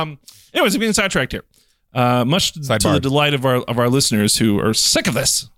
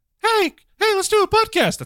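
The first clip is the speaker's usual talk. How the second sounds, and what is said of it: Very high-pitched voice. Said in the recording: “That's as high as my voice can go.”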